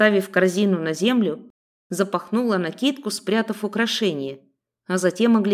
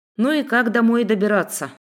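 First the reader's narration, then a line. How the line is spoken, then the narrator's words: Sighing. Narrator (Russian): Вздохнув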